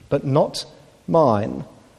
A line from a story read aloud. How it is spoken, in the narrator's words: God gently but firmly says